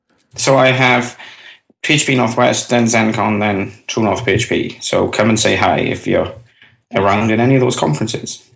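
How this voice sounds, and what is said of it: Unusual accent. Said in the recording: “a man with a weird accent”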